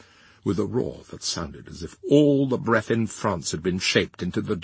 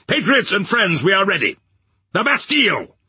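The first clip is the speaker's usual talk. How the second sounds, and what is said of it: Loud, resounding voice. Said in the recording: “in a resounding voice.”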